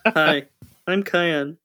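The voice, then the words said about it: Deadpan flat delivery. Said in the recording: “your deadpan voice”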